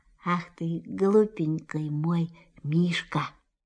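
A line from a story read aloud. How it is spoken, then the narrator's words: Tender whisper. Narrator (Russian): Кристофер Робин ласково прошептал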